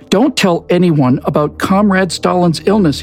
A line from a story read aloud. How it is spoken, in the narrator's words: he shouted